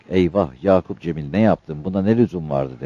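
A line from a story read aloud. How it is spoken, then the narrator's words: Plain. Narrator (Turkish): dedi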